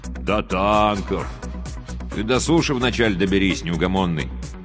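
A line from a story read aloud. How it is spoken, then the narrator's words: Gloomy grumble. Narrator (Russian): мрачно проворчал радист-пулеметчик Курсилов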